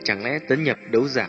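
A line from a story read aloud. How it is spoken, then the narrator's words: Puzzled mutter. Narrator (Vietnamese): Nhíu nhíu mày, Tiêu Viêm lẩm bẩm nói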